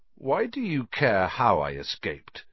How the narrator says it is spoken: said Harry slowly

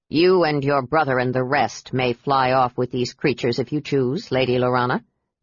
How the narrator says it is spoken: Derek said coldly

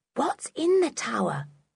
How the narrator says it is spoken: whispered Dick

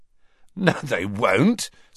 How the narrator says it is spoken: said Ron, who, like Harry, was laughing

